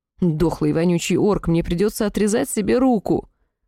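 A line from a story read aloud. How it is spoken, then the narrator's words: Sobbing. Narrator (Russian): Всхлипнула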